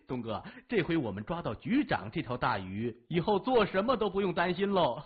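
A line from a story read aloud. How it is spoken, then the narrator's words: Hearty laugh. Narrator (Chinese): 高强哈哈一笑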